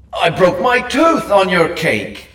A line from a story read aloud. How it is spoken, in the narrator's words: Angus howled